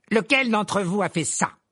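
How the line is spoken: Curt, sharp question. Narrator (French): lança-t-il d'un ton sec

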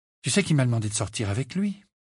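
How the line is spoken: Low voice. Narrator (French): dit-elle à voix basse

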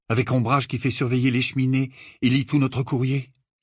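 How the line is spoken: Despairing. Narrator (French): répondit Harry d'un ton désespéré

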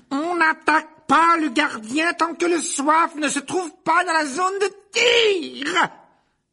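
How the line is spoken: Shouted. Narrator (French): hurla-t-elle à l'adresse de Bol et Derrick

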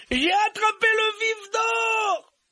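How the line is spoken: Triumphant shout. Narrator (French): hurla-t-il

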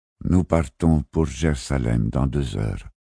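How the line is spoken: Muffled, gloomy voice. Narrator (French): dit San Frisco d'une voix sourde, visiblement rembrunie par l'annonce de la mort de Francfort

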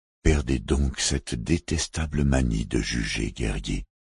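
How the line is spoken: Low-voiced reply. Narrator (French): répliqua Long Choupae à voix basse

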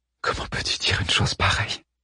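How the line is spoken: Close whisper. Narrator (French): lui chuchota-t-elle au creux des lèvres

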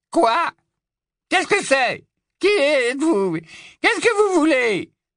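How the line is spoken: High-pitched grumpy outcry. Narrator (French): s'écria-t-il d'une voix haut-perchée, grincheuse

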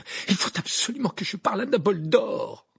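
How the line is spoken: Exclaimed. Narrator (French): s'exclama Harry

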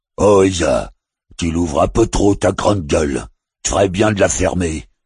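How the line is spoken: Waterfall's rumbling growl. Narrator (French): gronda la chute

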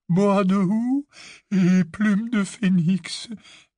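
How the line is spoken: Quavering voice. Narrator (French): dit Ollivander d'une voix chevrotante

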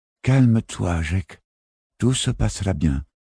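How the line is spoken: Calm, reassuring, pins in lips. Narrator (French): dit-elle d'une voix posée et rassurante, négligeant les épingles qui lui perforaient les lèvres

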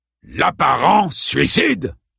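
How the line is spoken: Barked. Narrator (French): aboya Clemens

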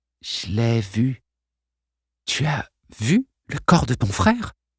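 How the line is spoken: Breathy whisper. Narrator (French): souffla Arlène

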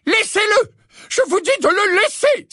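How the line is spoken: Exclaiming voice in darkness. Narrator (French): s'exclama la voix du professeur McGonagall dans l'obscurité

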